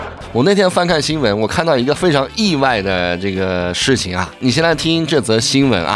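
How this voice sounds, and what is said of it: Usual voice. Nothing is said of it.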